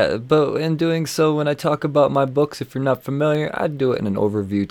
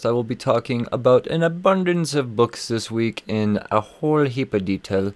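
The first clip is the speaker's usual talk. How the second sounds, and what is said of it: Slips into a put-on accent. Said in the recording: “I don't know where the accent just came from.”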